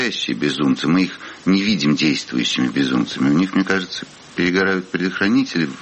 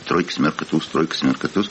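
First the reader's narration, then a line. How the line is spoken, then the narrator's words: Muttering. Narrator (Russian): бормочет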